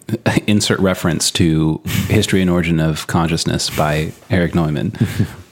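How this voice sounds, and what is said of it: Formal announcer-style radio voice. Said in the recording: “I love how you use the official voice for that. ... Did I put on my radio voice?”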